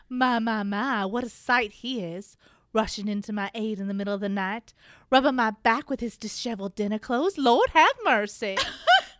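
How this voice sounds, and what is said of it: Put-on Southern Belle accent. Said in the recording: “slips into a Southern Belle accent ... I cannot do it, but I'm going to try”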